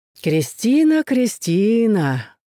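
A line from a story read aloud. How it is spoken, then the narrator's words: Singsong call. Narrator (Russian): нараспев позвал Малиновский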